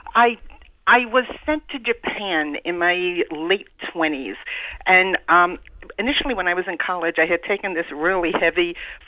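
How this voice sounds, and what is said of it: New York City accent. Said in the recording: “the Eastern accent you have is only as far east as New York City ... I'll just never get rid of the accent.”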